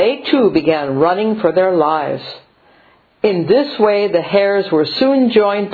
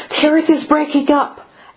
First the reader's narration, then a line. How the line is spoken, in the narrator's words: they were breathlessly told